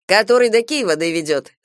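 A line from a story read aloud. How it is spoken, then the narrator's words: Plain. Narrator (Russian): спросил Галя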